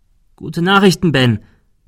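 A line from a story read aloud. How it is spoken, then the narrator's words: Calling out. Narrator (German): rief er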